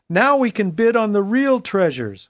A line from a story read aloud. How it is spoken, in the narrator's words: Cheers filled the room, and someone exclaimed